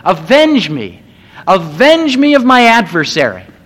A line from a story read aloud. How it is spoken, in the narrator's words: he can hear her still yelling